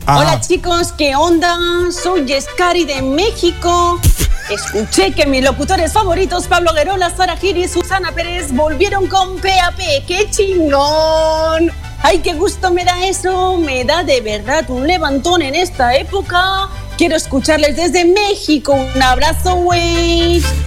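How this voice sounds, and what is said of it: Put-on Mexican Spanish accent. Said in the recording (Spanish): “este mail, chicos, es para que os acordéis que sé hacer acentos.”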